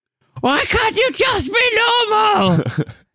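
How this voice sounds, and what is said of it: Impression of the Babadook mum. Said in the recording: “was that your impression of the Babadook mum? ... she's Australian, but that's all right. That's a good one.”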